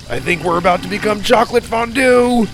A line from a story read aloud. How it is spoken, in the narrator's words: Sawyer shouted